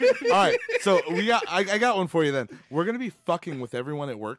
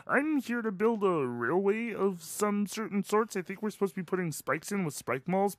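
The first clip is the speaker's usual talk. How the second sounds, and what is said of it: Kermit the Frog impression. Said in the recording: “the only voice that I could do now is Kermit the Frog”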